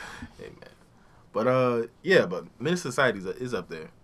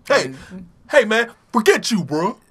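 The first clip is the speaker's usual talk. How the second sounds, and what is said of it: Imitates a studio voice-over dub. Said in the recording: “some random dude from the studio do his voice”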